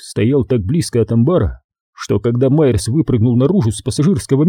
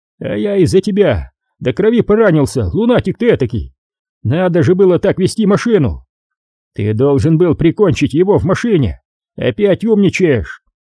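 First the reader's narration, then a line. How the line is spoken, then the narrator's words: Shouting up close. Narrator (Russian): Майерс закричать на него с более близкого расстояния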